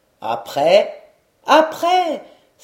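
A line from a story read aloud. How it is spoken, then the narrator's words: Crowd crying out. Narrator (French): s'écria-t-on de toutes parts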